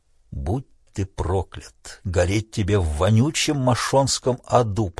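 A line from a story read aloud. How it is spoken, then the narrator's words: Whispered. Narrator (Russian): прошептал Тунгата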